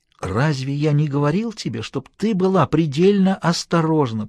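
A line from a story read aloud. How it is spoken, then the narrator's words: Hissing. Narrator (Russian): прошипел он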